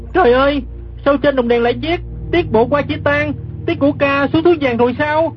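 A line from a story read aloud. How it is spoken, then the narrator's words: Startled cry. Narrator (Vietnamese): Gã kép hát đang nằm dưới đất, ngẩng mặt lên nhìn cặp đèn lồng treo trên cửa chính, giật mình la lên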